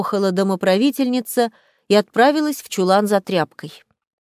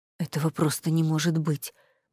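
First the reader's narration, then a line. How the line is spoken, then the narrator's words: Man muttering. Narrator (Russian): бормотал мужчина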